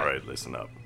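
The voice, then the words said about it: Different, more intimidating voice. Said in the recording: “You're doing a different voice. It was much more intimidating.”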